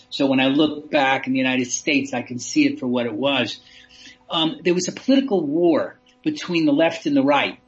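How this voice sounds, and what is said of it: American accent. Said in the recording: “I'm an American accent; you can hear it.”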